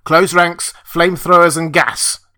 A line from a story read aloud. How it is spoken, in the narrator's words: Kirk bellowed into the mic